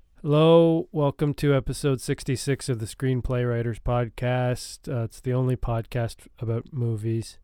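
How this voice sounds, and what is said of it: Congested, sick-sounding voice. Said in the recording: “I'm not feeling well... You might hear it in my voice that things just aren't feeling good. It's a cold, but it's a bad one. Lots of sniffling”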